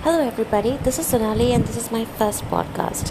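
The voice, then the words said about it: Weird, forcedly polite accent. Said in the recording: “I'm really, really weirded out by my accent. Why does it sound so weird and, I don't know, forcedly polite? I don't usually speak like this.”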